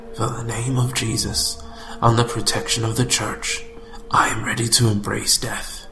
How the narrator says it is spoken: saying in a low voice

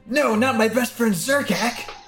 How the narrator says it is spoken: shouts

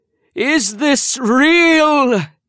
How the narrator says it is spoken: screamed

